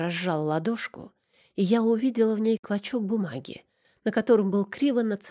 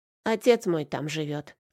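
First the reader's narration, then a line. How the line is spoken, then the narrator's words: Grown-up snort, child. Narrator (Russian): как-то по-взрослому хмыкнул постреленок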